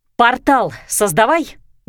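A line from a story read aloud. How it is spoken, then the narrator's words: Barked command, woman. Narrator (Russian): гаркнула она на Леру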